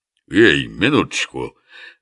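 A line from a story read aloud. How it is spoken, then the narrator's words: Lazy. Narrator (Russian): лениво задержал ее Оболенский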